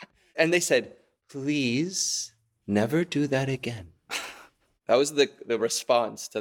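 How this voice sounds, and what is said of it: Usual voice. Nothing is said of it.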